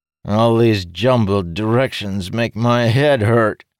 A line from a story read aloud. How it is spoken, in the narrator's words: the necromancer groaned again